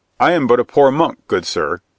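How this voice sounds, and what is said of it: Whining monk character voice. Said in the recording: “in a whining voice”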